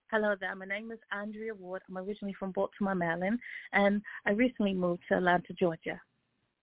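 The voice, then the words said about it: Put-on British accent. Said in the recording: “I could sound very British ... let's hear some British ... I like that accent ... I can see you doing a little British”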